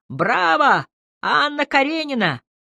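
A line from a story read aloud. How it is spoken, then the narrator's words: Distant shout from crowd. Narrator (Russian): крикнул откуда-то из гущи крутящихся пар Сережа Кох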